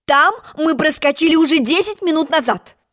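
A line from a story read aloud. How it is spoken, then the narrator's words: Shouted. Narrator (Russian): крикнула королева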